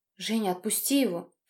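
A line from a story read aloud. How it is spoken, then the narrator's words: Breathless, near tears. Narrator (Russian): Чуть не плача выдохнула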